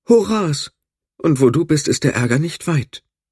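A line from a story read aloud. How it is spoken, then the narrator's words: Sighed. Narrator (German): seufzte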